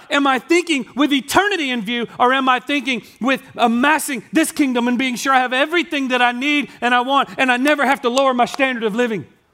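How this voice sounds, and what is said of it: Yelling, loud impassioned speech. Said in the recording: “I know I'm being super yelly right now”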